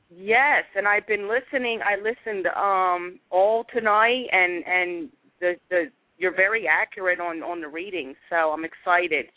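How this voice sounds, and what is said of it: Philadelphia accent. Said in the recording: “I love your accent... My family is from Philly... I know the accent very well.”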